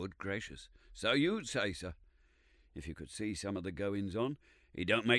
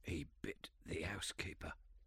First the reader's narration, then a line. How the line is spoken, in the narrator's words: said he in a hoarse whisper